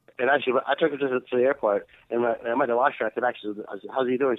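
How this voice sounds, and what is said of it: Foreign accent, somewhat hard to understand. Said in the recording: “sometimes it's hard to understand your accent a little bit”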